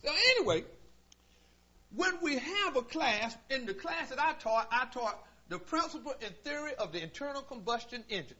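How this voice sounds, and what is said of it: Southern country accent. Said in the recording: “I have a country accent”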